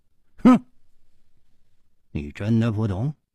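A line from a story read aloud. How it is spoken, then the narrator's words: Cold. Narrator (Chinese): 冷秋魂冷声说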